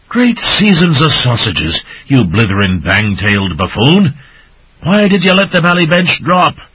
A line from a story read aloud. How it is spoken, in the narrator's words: Crimson-faced, gasped